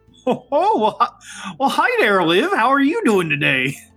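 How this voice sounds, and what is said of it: Masculine put-on Midwest accent. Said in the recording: “the Midwest accent, but more masculine than just my own voice”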